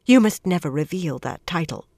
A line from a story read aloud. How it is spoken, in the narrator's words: Rafaela put in quickly